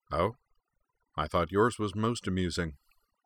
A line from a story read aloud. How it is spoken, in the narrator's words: Sionji's expression was neutral as he replied dryly